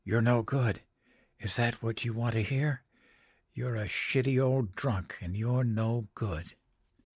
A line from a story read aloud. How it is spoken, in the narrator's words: I whispered down the hall